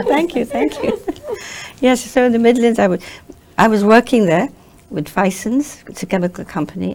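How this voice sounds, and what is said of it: English accent. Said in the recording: “She's got an English accent, too.”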